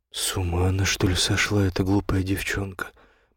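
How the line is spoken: Gloomy, frowning. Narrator (Russian): мрачно хмурясь проговорил Эллерингтон

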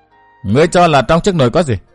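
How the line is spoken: Smiling question. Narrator (Vietnamese): Chàng mỉm cười hỏi lại

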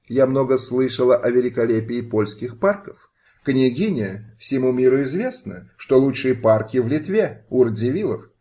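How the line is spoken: Plain. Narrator (Russian): ответил пан Петр

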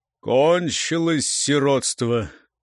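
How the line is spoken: Muffled, finally spoken. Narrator (Russian): глухо выговорил он, наконец

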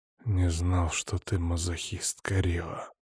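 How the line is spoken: Hoarse half-breath. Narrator (Russian): сипло на полувдохе

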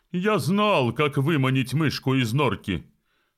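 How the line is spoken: Triumphant shout. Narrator (Russian): торжествуя выкрикнул Фестус

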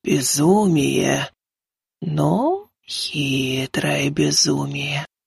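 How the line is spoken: Whispered. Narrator (Russian): прошептала Луналикая

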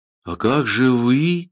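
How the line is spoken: Trembling voice. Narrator (Russian): трепещущим голосом спросила Ада

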